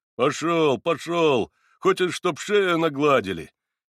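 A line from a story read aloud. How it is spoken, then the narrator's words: Lazy bass, janitor. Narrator (Russian): Лениво пробасил дворник, как бы для одной только проформы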